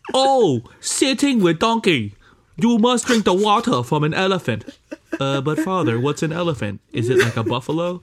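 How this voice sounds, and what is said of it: Imitated Native American movie accent. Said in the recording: “Native American ... that accent is so easy to do for us ... A honky accent? ... It is the easiest accent to do because we hear it so much in Singapore ... We hear it enough to be able to imitate it pretty effortlessly.”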